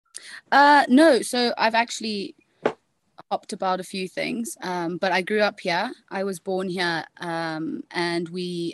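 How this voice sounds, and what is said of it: Distinctive regional accent. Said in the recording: “I think you have one of the coolest accents of people we've had in the podcast. It's a fantastic accent.”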